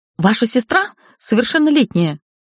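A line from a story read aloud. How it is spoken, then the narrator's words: Shrill shriek. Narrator (Russian): взвизгнула директриса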